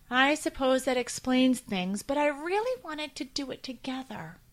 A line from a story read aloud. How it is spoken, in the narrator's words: said Millie sadly